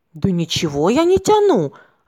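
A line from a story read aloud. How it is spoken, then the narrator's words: Offended reply. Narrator (Russian): обиженно ответил он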